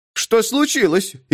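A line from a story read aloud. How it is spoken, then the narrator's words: Frightened question. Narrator (Russian): испуганно спросила она по-немецки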